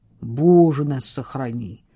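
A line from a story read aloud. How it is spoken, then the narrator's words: Muttered. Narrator (Russian): пробормотал Самуэль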